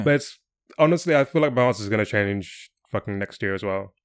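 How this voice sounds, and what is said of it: English accent. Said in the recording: “if they hear my accent, they'll be like, oh, are you from England?”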